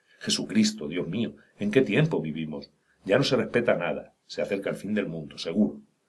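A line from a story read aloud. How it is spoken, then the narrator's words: Scandalized old women exclaiming. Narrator (Spanish): Pero las viejas devotas estaban escandalizadas y exclamaban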